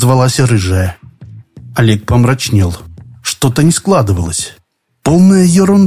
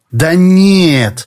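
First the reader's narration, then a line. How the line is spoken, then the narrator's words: Drawn out. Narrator (Russian): протянула рыжая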